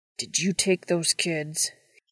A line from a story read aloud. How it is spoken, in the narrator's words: He asked through gritted teeth